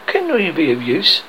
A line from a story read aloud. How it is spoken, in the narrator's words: as if he was saying timidly